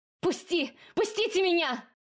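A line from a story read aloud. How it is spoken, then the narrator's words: Shout with burning throat. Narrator (Russian): выкрикнула я, но воздух обжег горло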